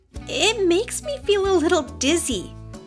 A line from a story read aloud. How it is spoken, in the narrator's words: Kara said with a giggle